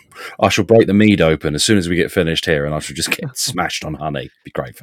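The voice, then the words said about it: Congested voice from a cold. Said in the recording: “I have a cold, and I'm not going to go on about it, but I have a cold, so I sound like I've been out drinking.”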